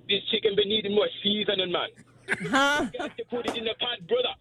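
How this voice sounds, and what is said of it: Put-on Jamaican accent. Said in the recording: “whenever I'm cooking, I have to do like a Jamaican accent, like I'm on a cooking show.”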